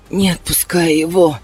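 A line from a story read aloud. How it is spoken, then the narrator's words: Wheezing. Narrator (Russian): прохрипела я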